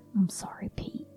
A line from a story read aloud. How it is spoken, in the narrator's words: muttered to himself